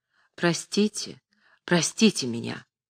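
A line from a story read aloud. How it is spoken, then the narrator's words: Quiet, agitated. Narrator (Russian): Марк Семенович тихо с волнением сказал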